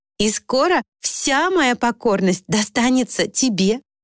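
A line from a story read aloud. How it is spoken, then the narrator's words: Laughing promise. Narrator (Russian): смеясь пообещала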